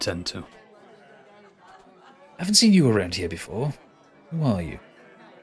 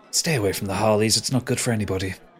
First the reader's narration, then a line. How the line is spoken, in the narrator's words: she just whispers down to you